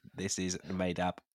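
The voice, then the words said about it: Imitates an AI chatbot voice. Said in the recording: “That's my impression ... Is that how ChatGPT talks?”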